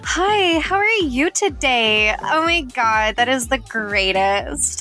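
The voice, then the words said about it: Bright, chirpy customer service voice. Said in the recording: “I have that customer service voice ... I have like my normal voice”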